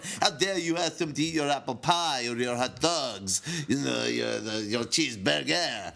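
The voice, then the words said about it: Put-on French accent with lisp. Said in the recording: “I'll use a French accent for my crunch ... not all French have a lisp like that”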